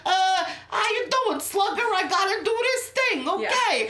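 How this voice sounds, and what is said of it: Exaggerated New York accent. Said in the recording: “their horrible New York accent”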